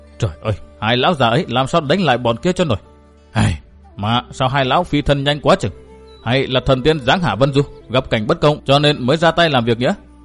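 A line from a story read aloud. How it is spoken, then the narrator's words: Lamenting mutter. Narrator (Vietnamese): gã tráng niên lẩm bẩm than thở một mình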